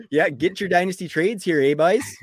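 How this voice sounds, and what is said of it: Exaggerated Canadian accent, higher-pitched voice. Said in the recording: “can you get rid of the Canadian accent? ... But why does it make your voice higher? ... you just lay it on a little thick”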